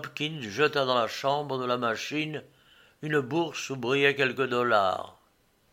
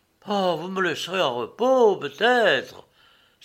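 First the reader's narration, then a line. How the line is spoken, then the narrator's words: Exclaimed, growing angry. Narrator (French): s'écria le capitaine qui commençait à se fâcher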